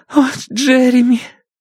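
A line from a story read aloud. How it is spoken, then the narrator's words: Muffled sobbing. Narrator (Russian): Гейл всхлипывает, уткнувшись в его плечо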